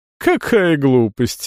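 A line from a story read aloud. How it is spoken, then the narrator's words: Laughing. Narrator (Russian): Эвита рассмеялась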